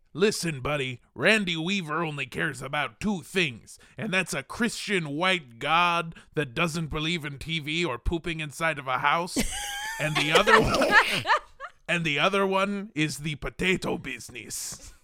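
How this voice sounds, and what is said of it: Put-on gruff pirate sea-captain accent. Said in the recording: “What is that accent? ... It went a little weird at the end there, but I was trying to do like a pirate shark guy from Jaws.”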